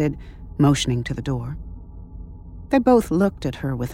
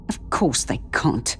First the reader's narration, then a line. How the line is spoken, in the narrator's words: she snapped, this time with a little more force